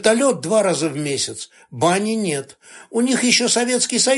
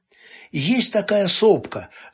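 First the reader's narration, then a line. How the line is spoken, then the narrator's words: Thoughtful pronouncement. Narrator (Russian): задумчиво изрек Сташевич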